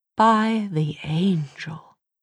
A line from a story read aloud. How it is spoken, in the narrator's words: breathed Charlotte